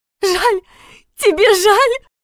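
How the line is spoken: Sobbing while hitting. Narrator (Russian): Рыдала, пересыпая слова ударами

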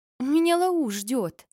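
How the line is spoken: Pleading. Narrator (Russian): Взмолилась

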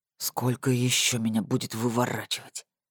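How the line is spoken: Muttered. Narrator (Russian): буркнул

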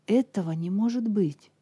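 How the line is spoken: Exclaimed. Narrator (Russian): воскликнул Тернер

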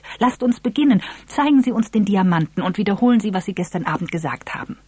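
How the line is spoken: Excited call. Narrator (German): rief Eve aufgeregt

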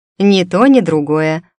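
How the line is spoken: Snorting. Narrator (Russian): фыркнула

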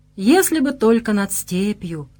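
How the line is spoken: Sighing old seer. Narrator (Russian): вздохнул слепой провидец

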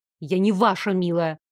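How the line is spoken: Snapping retort. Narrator (Russian): огрызнулась я

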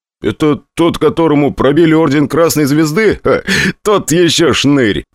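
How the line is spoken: Laughing. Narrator (Russian): посмеялся новый заместитель КМСК

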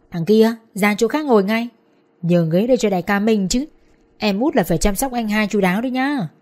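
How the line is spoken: Raised, bossy voice. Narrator (Vietnamese): Trưởng nhóm lên giọng

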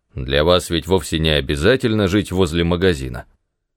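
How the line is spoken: Grumbling. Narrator (Russian): Он пробурчал

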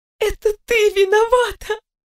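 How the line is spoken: Sobbing girl. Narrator (Russian): всхлипнула девушка, заходясь в рыданиях

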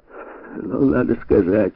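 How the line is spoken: Chuckling. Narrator (Russian): Куинт хохотнул

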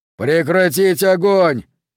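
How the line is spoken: Yelled. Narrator (Russian): завопил Уокер

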